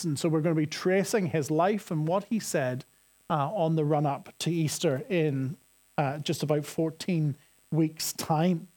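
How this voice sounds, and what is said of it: Northern Irish accent. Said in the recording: “my Northern Irish accent ... I say the verb to look and the male name look the same”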